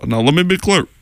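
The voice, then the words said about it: Imitates another person's voice. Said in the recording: “Both Obama... my voice is a little bit different... impression of Obama becomes more spot on... his impression wasn't that great”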